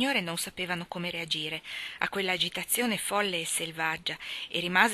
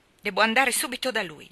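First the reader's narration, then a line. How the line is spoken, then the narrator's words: Shouted. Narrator (Italian): gridò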